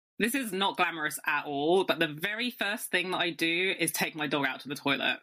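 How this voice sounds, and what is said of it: British accent. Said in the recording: “I'm actually really aware of my accent right now. I'm like, okay, sorry, really British.”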